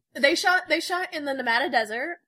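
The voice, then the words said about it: Midwestern American accent. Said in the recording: “Did you just hear her say Nevada? Nevada? ... Midwestern accent”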